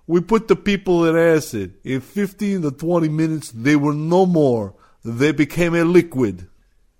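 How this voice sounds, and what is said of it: Put-on mobster accent. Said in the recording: “I'm going to break my accent rule because these are mob guys, not scientists.”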